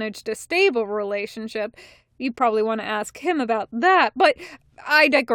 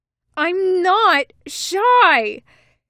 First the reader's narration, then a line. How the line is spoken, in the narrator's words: he bellows at Thatch's retreating back